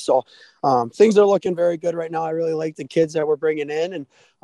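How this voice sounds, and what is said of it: Strained, not fully recovered voice. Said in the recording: “your voice is still not even close to fully recovered”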